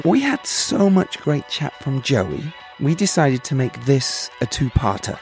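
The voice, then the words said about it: Tired voice. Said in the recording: “my voice is tired, clearly”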